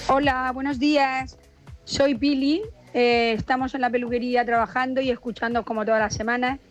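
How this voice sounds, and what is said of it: Murcian Spanish accent. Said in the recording (Spanish): “el acento murciano”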